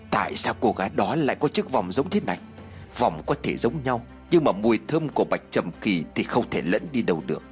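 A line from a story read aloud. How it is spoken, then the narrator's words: Soft. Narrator (Vietnamese): Ông Vương khẽ nói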